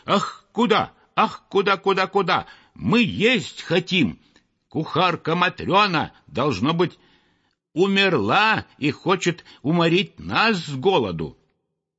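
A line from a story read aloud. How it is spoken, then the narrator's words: Frenzied shouting. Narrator (Russian): неистово кричали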